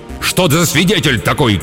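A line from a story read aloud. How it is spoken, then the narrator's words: Shouting, losing composure. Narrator (Russian): крикнул Эдип, окончательно потерявший самообладание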